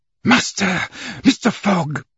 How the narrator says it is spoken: he exclaimed

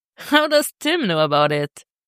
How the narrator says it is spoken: She laughs

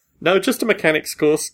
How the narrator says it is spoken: Gordon laughed

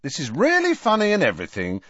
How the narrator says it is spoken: said Harry impatiently

